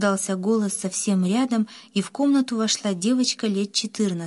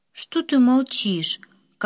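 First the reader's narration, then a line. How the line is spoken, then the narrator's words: Weary question. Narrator (Russian): Как-то устало спросила она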